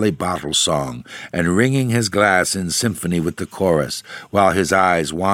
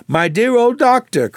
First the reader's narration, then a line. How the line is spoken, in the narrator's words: cried she